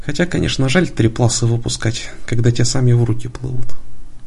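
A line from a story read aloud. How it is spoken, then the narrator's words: Sighing. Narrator (Russian): вздохнув, добавил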